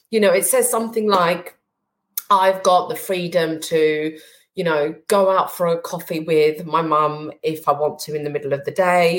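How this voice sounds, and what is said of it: Emotional, wavering voice. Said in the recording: “getting emotional”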